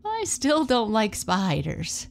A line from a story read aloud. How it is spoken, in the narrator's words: Boo giggled